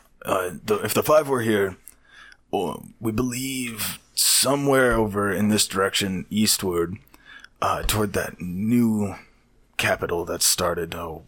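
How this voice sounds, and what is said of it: Old man character voice. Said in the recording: “old man voice. It's supposed to be more like this.”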